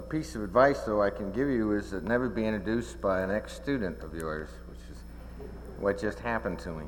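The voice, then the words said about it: Southern US accent. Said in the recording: “his good Richmond, Virginia, Southern accent”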